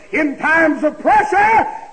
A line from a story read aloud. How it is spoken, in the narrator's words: He cried